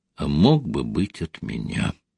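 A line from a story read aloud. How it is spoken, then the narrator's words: Quiet, saddened. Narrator (Russian): отчего-то загрустила и тихо добавила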